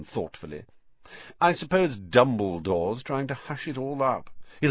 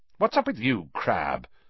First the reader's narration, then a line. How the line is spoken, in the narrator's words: snapped Malfoy